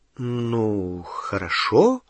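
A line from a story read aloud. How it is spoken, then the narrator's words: Uncertain agreement. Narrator (Russian): неуверенно согласилась Гермиона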